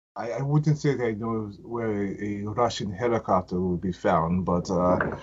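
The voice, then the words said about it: Bad put-on Russian accent. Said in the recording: “That was a horrible Russian accent.”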